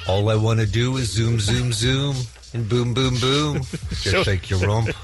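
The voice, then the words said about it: Singing in a put-on English accent. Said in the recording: “That's you just having an English accent doing”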